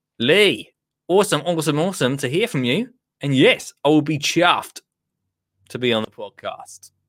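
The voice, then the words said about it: Put-on accent reading an email. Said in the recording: “I won't do the accent. No, I will do it.”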